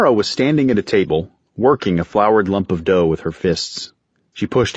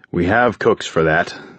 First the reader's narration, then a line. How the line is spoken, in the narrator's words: Alan said wearily